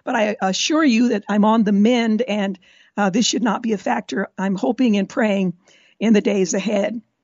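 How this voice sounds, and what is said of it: Scratchy, raspy voice. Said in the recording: “my scratchy voice ... my raspy voice ... how scratchy I'm going to be”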